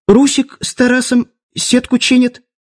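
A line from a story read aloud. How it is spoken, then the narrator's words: Squeak, novice mage. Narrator (Russian): пискнул начинающий маг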